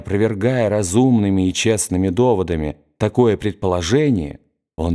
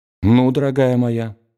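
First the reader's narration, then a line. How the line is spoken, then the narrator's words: Dry. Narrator (Russian): сказал он ей сухо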